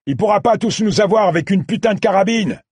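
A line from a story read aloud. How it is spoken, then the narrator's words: Leader yelling. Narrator (French): hurla le chef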